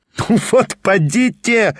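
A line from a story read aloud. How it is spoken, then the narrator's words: Laughing. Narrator (Russian): рассмеялся Петр Степанович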